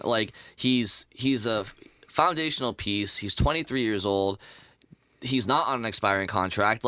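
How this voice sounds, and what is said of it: Boston accent. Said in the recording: “Probably the Boston accent.”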